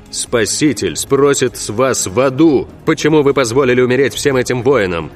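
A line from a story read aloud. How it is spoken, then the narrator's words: Impatient barking. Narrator (Russian): рявкнул потерявший терпение Рауль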